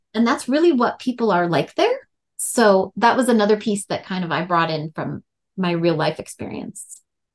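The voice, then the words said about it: Fargo North Dakota accent. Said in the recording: “That Fargo accent, y'all. ... my accent starts to come out”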